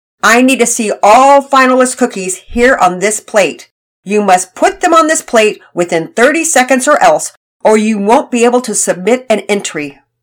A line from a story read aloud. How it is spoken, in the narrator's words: Daddy Peters loudly announced